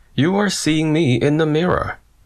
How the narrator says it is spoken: she smiled and said to him kindly

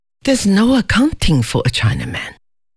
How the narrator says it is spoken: muttered Fabian

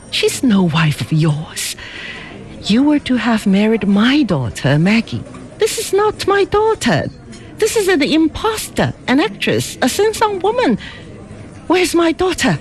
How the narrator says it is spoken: laughed her peculiar, rippling, amused laugh

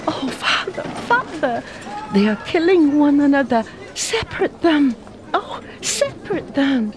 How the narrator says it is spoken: pleaded Fing Fan

